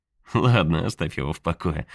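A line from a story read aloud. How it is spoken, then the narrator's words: Laughing. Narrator (Russian): рассмеялся Тейлор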